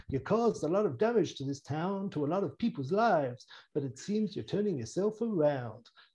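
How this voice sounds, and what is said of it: Imitates another person's voice. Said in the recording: “my Billy Dee Williams impression. ... Not bad”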